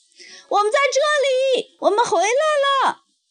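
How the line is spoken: Anxious loud shout. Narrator (Chinese): 两辆小火车顿时着急地一起吹响汽笛，大声喊

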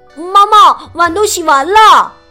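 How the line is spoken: Shouting. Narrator (Chinese): 他对妈妈喊道

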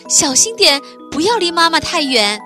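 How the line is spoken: Calling out from behind. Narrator (Chinese): 公鸡妈妈在后面喊

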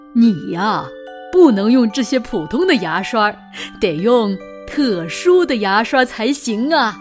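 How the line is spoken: Laughing. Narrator (Chinese): 他笑着对小鳄鱼说

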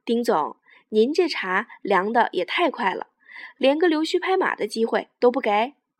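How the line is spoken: With a smile. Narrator (Chinese): 萧亚文笑了笑说

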